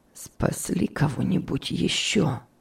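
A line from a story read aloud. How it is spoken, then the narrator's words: Hoarse question. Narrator (Russian): спросил охрипшим голосом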